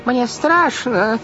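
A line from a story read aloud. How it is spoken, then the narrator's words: Frightened shout. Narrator (Russian): закричала тетя Жозефина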